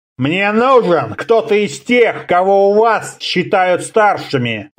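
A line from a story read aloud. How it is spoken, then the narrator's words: Barbarian growling. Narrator (Russian): рыкнул варвар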